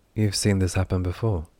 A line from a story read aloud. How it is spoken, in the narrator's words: Derry said, her voice steady, unveiled